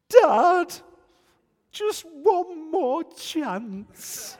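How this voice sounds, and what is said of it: Impression of his sons pleading. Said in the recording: “my lads would say to me, I'll try and do the best impression that I can”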